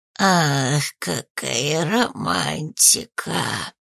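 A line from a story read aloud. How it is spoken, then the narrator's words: Hoarse wheeze. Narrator (Russian): Прохрипел он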